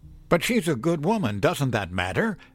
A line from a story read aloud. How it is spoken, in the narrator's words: I cried